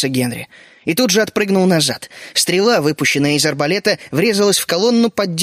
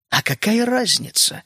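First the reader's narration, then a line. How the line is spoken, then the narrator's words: Insinuating snide inner voice. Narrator (Russian): вкрадчиво спросил ехидный голос внутри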